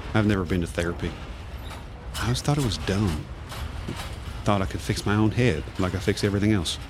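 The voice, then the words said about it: Good old boy accent. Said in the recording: “talk like a good old boy”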